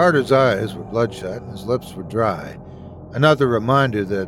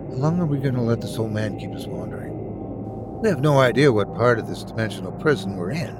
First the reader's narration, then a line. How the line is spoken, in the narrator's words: I pull Carter to the side and mutter